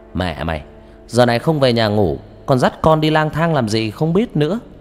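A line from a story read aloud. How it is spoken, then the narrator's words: Loud. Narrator (Vietnamese): An lớn tiếng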